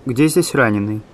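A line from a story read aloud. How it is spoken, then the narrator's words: Stern elderly woman's question. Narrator (Russian): Какая-то пожилая женщина строго спросила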